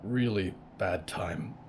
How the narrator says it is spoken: Jonah grunted

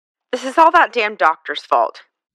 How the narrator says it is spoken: Pat grumbled

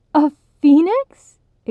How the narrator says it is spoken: Igmara squealed

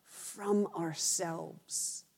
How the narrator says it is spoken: whisper

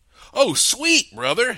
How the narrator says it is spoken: he exclaimed

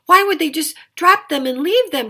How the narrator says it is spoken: she cried

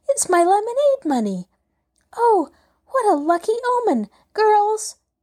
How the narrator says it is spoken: she gasped

